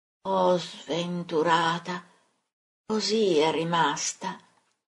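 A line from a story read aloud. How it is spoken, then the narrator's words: Murmuring. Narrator (Italian): Mormora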